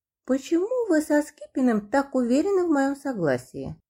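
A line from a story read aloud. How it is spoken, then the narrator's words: Young woman, barely audible. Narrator (Russian): еле слышно проговорила девушка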